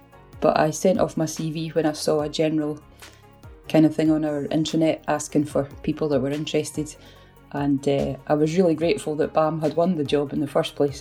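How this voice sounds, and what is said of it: Scottish accent. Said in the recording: “I have a Scottish accent”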